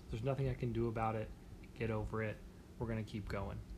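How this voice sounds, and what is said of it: American accent. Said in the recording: “I want to apologize for my accent ... I pretty clearly was born in America”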